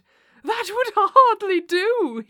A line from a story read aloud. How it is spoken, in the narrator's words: he cried